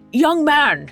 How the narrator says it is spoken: he called out

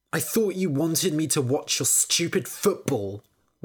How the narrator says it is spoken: Willow spat

